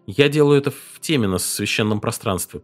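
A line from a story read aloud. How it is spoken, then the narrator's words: Mumbling. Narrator (Russian): промямлил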